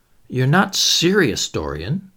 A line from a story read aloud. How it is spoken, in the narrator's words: murmured